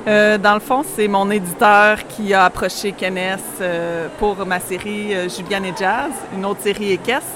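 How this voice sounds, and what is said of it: Quebec French accent. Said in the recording (French): “vous avez un petit accent qui nous vient de loin ... du Québec, directement”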